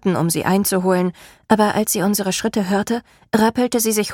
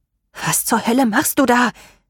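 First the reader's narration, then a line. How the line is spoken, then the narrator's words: Snarling. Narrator (German): fauchte Rain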